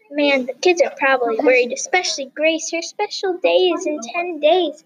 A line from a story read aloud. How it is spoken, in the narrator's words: exclaimed Miss Bangert